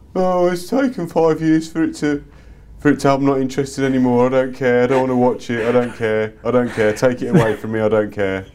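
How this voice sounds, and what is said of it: Mocking impression of uninterested people. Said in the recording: “It's a very good impression of this”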